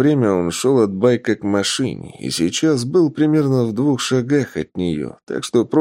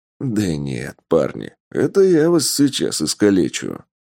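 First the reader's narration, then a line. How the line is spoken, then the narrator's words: Amused snort. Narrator (Russian): хмыкнул Тапок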